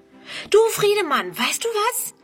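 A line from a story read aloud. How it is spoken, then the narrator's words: Calling out. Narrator (German): ruft sie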